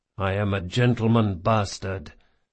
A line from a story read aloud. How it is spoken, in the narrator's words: he muttered to himself